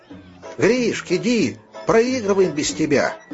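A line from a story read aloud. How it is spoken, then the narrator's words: Kids shouting. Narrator (Russian): кричали ему ребята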